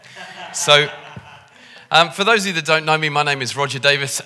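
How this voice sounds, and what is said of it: Liverpool English accent. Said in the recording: “the way that I talk with my posh accent, I come from Liverpool”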